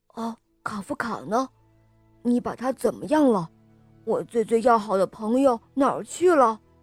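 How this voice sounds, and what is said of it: Quiet, tearful whispered question. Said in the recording (Chinese): “迈克的眼泪都要掉下来了，他小声地问道”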